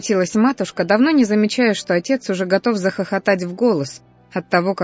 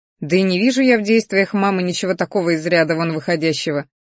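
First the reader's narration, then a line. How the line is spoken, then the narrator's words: Short laugh. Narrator (Russian): хохотнул он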